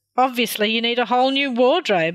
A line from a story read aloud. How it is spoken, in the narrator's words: Shona laughed